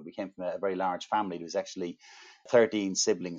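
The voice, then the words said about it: Irish accent. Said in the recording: “As you can probably tell from my accent, I'm Irish”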